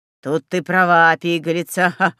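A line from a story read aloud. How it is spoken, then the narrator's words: Loud laughter. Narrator (Russian): захохотал Мороз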